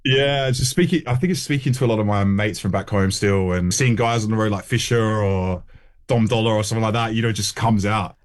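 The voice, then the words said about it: Australian accent, nasal O sounds. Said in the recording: “You still got that twinge, though. You still got the accent, haven't you? It's the classic. Yeah. It's the nose. It's the homes. It's the O sound”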